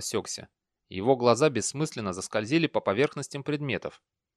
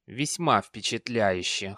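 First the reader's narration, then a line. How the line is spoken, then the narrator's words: Amused snort. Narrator (Russian): хмыкнул герцог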